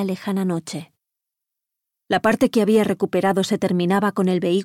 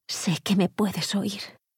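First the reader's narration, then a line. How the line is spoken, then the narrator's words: Soft whisper. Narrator (Spanish): musitó en voz baja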